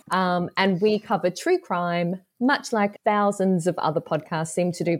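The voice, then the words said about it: Australian accent. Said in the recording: “I should probably guess from my accent, I'm the Australian half.”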